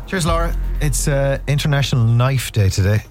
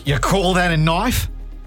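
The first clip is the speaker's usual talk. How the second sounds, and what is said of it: Put-on Australian accent. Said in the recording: “Australian accent there”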